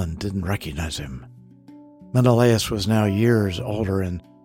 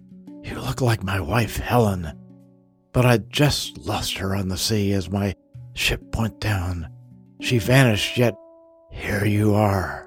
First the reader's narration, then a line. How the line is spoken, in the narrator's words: Choking back tears, he declared